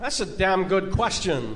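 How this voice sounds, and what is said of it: Christopher Walken impression. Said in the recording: “I do celebrity impersonations ... they got Christopher Walken.”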